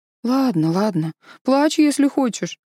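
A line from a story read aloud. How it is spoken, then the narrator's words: Regretful sigh. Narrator (Russian): вздохнула Джу Янь с некоторым сожалением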